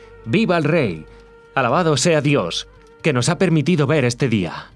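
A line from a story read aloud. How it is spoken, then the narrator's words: Kneeling crowd exclaiming. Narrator (Spanish): cayeron de rodillas, exclamando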